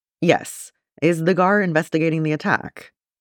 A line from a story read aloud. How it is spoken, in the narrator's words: Jin sighs